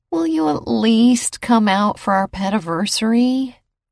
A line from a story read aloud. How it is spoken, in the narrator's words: begged, practically whined